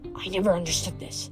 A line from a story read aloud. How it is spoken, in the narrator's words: I whispered